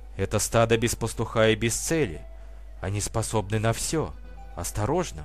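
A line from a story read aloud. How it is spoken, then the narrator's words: Whisper in ear. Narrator (Russian): прошептала Франсина на ухо подруге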